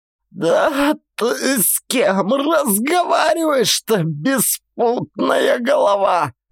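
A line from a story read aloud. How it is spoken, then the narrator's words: Hoarse. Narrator (Russian): Уже хрипела она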